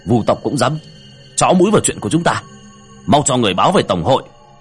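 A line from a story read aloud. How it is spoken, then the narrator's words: Angry. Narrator (Vietnamese): Tên cầm đầu tức giận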